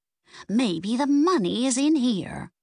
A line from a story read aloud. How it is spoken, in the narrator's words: she said excitedly